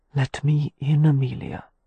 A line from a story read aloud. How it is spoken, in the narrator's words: he whispered